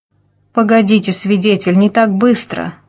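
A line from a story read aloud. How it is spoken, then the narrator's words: Moaning. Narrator (Russian): простонал он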